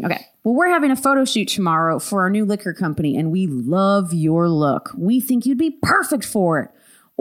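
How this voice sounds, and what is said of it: Put-on Southern accent. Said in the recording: “Have you had a Southern accent since I've known you?”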